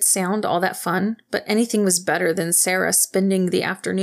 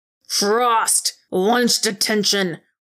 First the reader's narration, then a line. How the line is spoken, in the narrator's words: McGuckin's voice boomed through the hallway